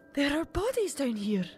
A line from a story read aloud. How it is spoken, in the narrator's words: She gasped at the sight of a corpse